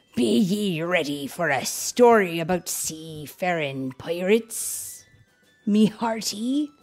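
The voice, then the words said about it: Put-on pirate accent. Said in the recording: “That's actually a pretty good pirate accent.”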